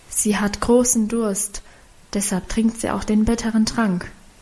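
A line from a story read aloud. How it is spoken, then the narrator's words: Whispered explanation. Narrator (German): Sie erklärte flüsternd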